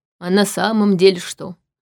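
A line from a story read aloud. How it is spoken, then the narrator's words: Gloomy question. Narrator (Russian): мрачно спросил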